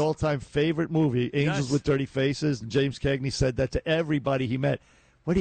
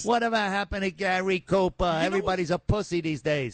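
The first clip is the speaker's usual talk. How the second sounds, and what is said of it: Imitates a TV mob boss voice. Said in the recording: “great great impression”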